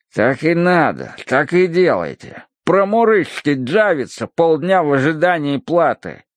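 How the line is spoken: Grumbling. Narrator (Russian): ворчал он

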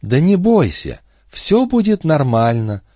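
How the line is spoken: Sugary coo, hidden menace. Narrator (Russian): проворковала Бобби, и за этой приторной нежностью скрывалось нечто воистину страшное

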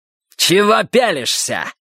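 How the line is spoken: Barking. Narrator (Russian): рявкнул он

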